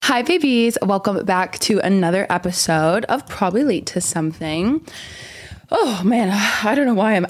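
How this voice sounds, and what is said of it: Out of breath, breathless speech. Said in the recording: “out of breath ... I can't believe I was just so out of breath”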